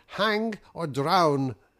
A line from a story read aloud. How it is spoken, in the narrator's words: putting his hands to his mouth and his mouth to my ear, he shouted